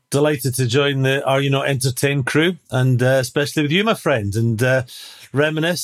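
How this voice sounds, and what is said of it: Scottish accent. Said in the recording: “captaining his country, Scotland, if you couldn't tell from his accent.”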